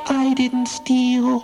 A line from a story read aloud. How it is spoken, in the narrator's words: squeaked Chipmunk